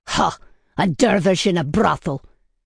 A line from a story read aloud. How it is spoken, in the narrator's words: Baibars snorted